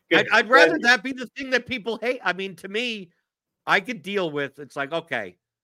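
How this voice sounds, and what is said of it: New York accent. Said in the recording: “the annoying Jewish New York accent ... I'm from New York, right? Yeah. That's what I sound like. No one here in Kentucky thinks I'm from here”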